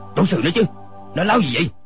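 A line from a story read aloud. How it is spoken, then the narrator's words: Dazed, snapping. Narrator (Vietnamese): Nam Hải Ngạc Tần ngơ ngẩn, y gắt lên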